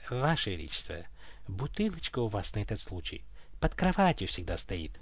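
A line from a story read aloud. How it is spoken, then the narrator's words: Delicate whisper in ear. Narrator (Russian): деликатно прошептал на ушко царю Михалыч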